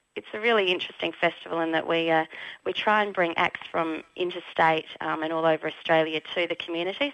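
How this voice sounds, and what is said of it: Worn-out voice. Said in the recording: “as you can hear from my voice, I may have done a bit of talking and running around”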